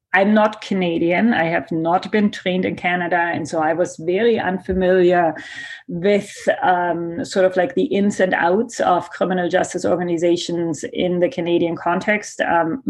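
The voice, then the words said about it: German accent in English. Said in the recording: “My accent that you hear is German.”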